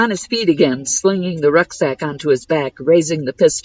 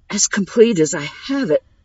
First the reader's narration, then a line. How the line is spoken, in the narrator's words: Agnes wheezed